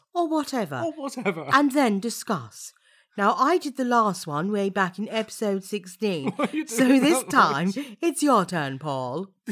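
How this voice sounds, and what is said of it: Wavering put-on accent. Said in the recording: “I don't know where your accent went there, but it was very interesting ... I was too busy concentrating on my accent ... It's all gone horribly wrong.”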